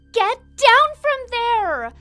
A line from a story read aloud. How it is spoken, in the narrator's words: She cried